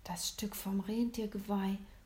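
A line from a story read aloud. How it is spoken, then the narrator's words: Awed whisper. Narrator (German): flüsterte William ehrfürchtig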